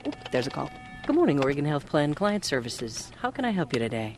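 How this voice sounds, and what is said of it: Smooth radio announcer voice. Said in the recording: “smooth radio voice”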